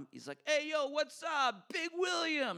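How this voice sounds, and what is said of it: Thick put-on Long Island accent. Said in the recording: “this thick Long Island accent.”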